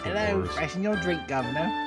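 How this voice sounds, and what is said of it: Put-on British accent. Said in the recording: “I'm going to do this entire show with a British accent.”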